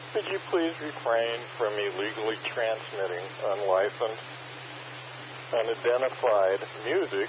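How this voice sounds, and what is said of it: Polite, official radio-operator voice. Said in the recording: “asking you very nicely in my control operator voice”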